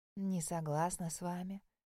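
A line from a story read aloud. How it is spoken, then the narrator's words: Soft, smiling objection. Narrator (Russian): Эльдира, улыбнувшись, мягко возразила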